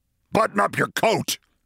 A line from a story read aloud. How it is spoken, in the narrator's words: he snapped